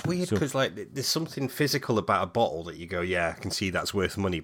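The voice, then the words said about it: Scottish accent. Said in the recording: “You and your Scottish accent.”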